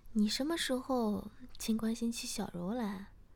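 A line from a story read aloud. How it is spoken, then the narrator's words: Sighing. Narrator (Chinese): 诗雅叹了口气说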